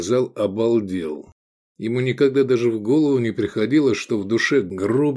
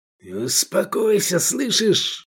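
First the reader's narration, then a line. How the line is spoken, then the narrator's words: Hissed. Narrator (Russian): зашипел Джуманиязов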